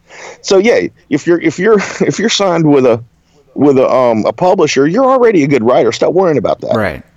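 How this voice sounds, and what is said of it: Southern US Alabama accent. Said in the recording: “you have a Southern accent ... I can tell that it's from Alabama”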